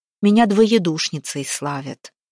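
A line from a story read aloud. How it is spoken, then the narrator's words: Sigh. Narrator (Russian): Устинья вздохнула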